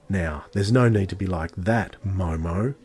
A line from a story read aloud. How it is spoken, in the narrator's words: growled the girl threateningly